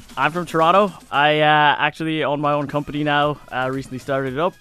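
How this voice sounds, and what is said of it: North American accent. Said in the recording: “Let's hear your accent for a second... you sounds American... Sounds American”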